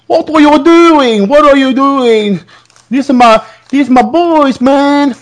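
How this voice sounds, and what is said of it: Failed attempt at a put-on accent. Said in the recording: “I can't do that broccoli accent, sorry.”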